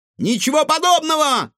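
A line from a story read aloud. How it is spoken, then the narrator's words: Shouted reply. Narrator (Russian): крикнул в ответ Егор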